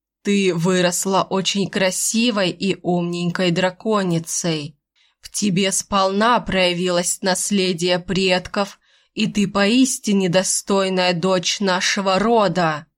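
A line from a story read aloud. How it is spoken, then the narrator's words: Solemn, father. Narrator (Russian): Торжественно продолжил отец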